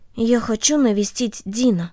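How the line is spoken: Quiet. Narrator (Russian): Корнелли тихо сказала ей

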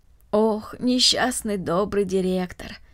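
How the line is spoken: Sigh. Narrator (Russian): вздохнула Марта

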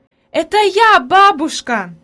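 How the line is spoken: Joyful shout. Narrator (Russian): закричала обрадованно Хади

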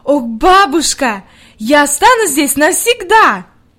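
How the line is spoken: Delighted exclamation. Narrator (Russian): с восторгом воскликнула

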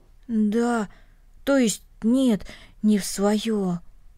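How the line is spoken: Muffled, hollow voice. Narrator (Russian): глухо произнес Денис

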